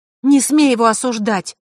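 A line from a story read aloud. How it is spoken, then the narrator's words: Snapping. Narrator (Russian): огрызнулась Василиса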